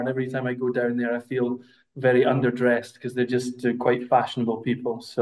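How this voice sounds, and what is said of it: Scottish accent. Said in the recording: “My Scottish accent is obviously showing that I'm not Italian”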